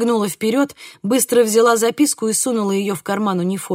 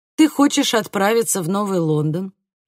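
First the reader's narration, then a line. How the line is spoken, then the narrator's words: Even flat tone. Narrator (Russian): ровным тоном произнес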